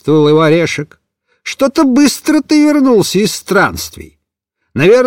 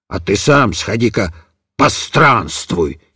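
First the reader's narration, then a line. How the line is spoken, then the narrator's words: Angry grumble. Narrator (Russian): сердито проворчал Пашек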